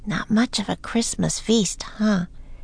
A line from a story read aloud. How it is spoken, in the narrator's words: Annie said in a low voice